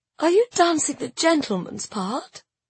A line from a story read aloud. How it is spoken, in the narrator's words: she said wearily